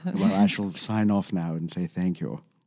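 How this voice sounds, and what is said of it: Posh British accent, Queen's English. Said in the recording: “a pure British accent ... the high-end one ... Is that the Queen's English?”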